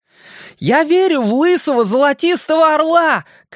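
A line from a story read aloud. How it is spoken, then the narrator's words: Shouted after. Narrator (Russian): крикнул вслед Стэн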